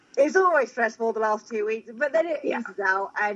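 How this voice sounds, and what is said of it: British accent. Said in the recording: “the one with the British accent”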